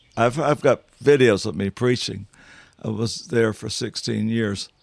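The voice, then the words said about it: Southern country accent. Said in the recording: “this country boy accent ... my southern accent ... speaking like Gomer Pyle ... back to the old country boy”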